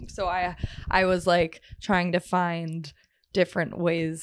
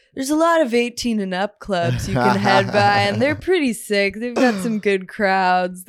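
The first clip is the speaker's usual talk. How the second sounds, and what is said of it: Frat brother voice. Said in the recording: “did that voice, I got a little scared ... I'm talking to a frat brother right now”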